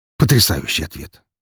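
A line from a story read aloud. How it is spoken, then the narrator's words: Snorting son. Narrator (Russian): фыркнул его сын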